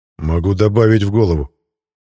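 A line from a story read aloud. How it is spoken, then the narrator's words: Grim. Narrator (Russian): мрачно произнес Мирон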